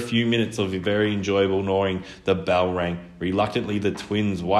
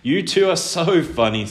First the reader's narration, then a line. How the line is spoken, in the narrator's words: said Minnie, holding her sides with laughter